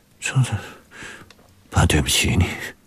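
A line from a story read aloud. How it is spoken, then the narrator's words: Murmuring. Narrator (Chinese): 方志远喃喃着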